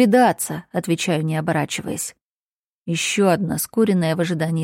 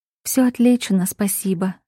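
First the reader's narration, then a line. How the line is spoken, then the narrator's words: Calm reply. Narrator (Russian): отвечает спокойно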